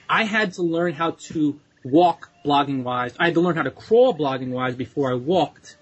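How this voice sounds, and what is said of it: Slight New York/New Jersey accent. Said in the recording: “you can hear my New York, New Jersey accent a little bit. When I talk about crawl, walk, I notice it now.”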